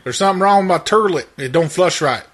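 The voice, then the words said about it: Sultry put-on Southern accent. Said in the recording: “my sultry southern voice tonight. My telephone and radio voice.”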